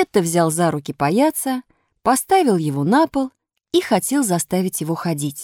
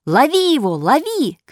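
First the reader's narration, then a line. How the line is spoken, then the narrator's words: Shouting. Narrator (Russian): кричал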